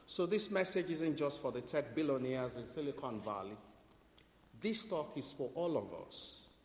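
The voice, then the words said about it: Speaks with a noticeable accent. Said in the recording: “to understand my accent, to decode what I am saying”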